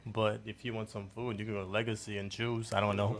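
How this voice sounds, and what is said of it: Haitian accent. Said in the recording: “I heard the accent ... I'm Haitian.”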